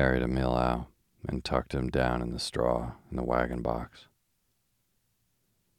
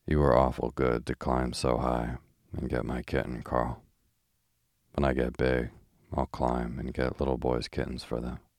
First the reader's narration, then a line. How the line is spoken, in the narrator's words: murmured drowsily